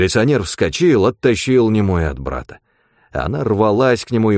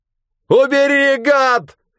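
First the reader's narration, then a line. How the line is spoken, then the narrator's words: Yelling in a strange voice. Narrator (Russian): заорал Степан не своим голосом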